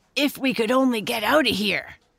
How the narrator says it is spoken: grunted Squinty

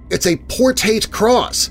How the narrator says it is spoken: Deanna immediately exclaims

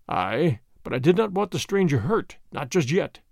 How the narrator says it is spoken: murmured Chauvelin, savagely

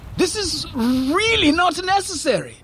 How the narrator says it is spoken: Farid shouted

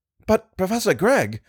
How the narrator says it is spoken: I cried, breathless,

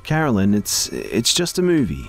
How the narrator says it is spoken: she said in a bright, chipper voice

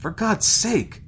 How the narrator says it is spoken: Peterson exclaimed

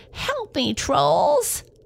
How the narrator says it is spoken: she screeched

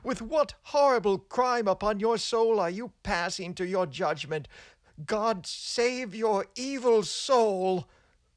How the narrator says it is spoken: cried the frightened young minister

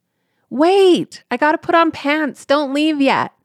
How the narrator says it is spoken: I yelled

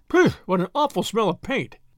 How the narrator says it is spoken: cried the inspector

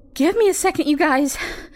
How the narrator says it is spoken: she panted

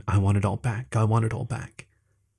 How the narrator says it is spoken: His paw was shaking, and as he started crying harder, muttering over and over again

